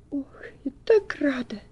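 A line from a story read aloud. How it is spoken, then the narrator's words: After a deep sigh. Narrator (Russian): глубоко вздохнув, ... со словами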